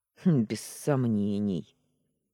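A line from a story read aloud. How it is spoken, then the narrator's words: Man's grunt. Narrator (Russian): хмыкнул мужчина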